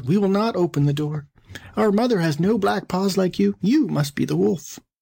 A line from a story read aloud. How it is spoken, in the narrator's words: the kids cried out